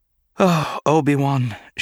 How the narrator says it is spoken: sighed

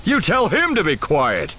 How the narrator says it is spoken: Solo snapped

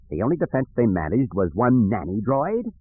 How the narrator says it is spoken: He chuckled again

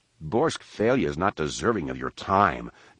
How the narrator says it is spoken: Jason spat

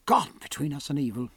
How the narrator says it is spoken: he muttered

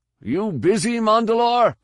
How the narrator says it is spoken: Carid yelled

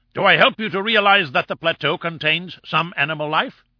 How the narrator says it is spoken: he shouted, hoarse with excitement

